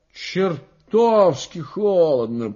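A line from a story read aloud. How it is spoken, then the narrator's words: Grumble. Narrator (Russian): проворчал Семечкин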